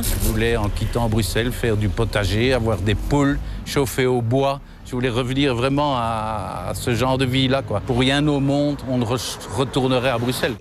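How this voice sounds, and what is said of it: Brussels French accent. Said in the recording (French): “Un accent bruxellois”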